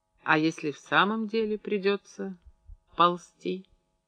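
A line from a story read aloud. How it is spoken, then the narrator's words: Quiet question. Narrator (Russian): тихо спросила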